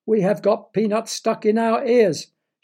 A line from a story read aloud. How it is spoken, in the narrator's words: shouted the nose doctor